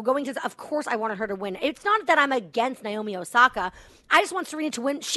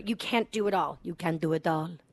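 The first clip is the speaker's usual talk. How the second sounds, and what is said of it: Put-on French accent. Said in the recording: “That's my French accent.”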